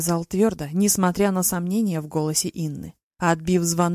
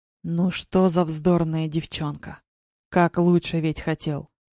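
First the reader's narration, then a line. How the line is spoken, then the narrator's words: Said quietly. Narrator (Russian): проговорил негромко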